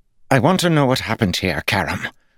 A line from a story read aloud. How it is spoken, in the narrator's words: Lord Jared snapped